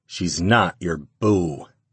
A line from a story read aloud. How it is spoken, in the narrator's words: grunted under his breath